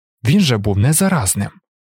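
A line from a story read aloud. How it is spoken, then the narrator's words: Exclaimed. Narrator (Ukrainian): вигукнув Каладін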